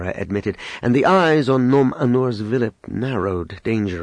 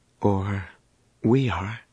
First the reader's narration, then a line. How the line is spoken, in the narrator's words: said gravely